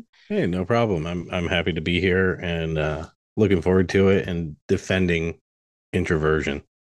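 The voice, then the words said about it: Great radio-style voice. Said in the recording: “You just have such a great radio voice ... He has like an amazing voice.”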